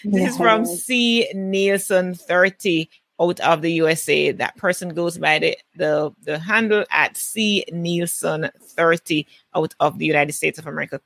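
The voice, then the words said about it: Speaks with a distinctive accent. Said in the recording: “I love her accent.”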